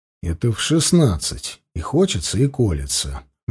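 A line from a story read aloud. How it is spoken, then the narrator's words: Gentle, soothing objection. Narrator (Russian): мягким тоном врача, разговаривающего с умирающим пациентом, возразил Данилов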